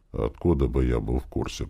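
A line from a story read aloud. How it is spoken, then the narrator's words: Muttering. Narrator (Russian): пробормотал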